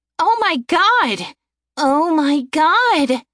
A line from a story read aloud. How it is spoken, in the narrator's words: She exclaimed